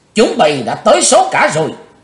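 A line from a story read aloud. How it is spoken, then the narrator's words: Loud shout. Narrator (Vietnamese): chàng hét lớn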